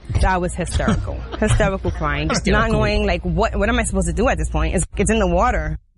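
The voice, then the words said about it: Speaks with an attractive accent. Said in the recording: “her sexy accent”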